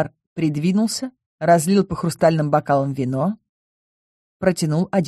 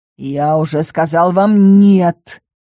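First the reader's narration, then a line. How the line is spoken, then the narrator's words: Menacing growl. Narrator (Russian): рыкнул грозно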